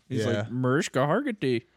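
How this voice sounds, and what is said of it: Put-on Indian accent. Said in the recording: “the best Indian accent ... The closest I think I could do is from like Love Guru.”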